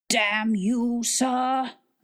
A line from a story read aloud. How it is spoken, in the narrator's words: another voice bellowed out